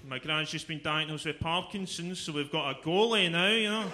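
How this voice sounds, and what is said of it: Glaswegian Scottish accent. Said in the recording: “the accent is a bit fucked ... Glaswegian accent”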